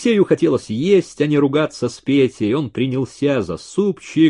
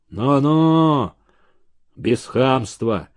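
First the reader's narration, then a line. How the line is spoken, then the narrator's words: Gruff mutter. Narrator (Russian): буркнул Столбов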